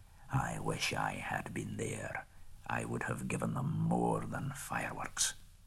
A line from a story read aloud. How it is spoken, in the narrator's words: Bjorn muttered